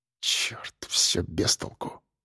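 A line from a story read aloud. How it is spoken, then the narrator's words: Muttered. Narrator (Russian): пробормотал он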